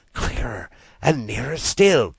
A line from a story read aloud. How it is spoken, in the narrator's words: cried Rat joyously